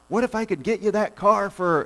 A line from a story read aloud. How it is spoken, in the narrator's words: yells across the parking lot